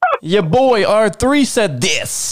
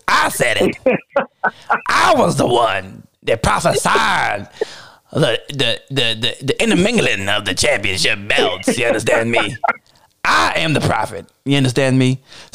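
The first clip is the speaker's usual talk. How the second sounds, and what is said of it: Southern Baptist preacher voice. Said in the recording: “My Southern Baptist preacher voice.”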